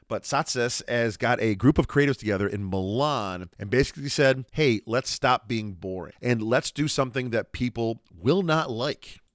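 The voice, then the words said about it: New York Rochester accent. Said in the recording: “I am murdering it with my New York Rochester accent.”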